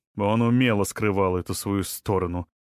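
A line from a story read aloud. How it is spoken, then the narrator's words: Wry snort. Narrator (Russian): хмыкнул Расмус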